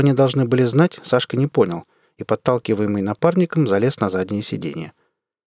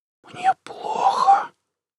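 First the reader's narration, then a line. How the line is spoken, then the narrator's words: Whispered reply. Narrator (Russian): прошептал в ответ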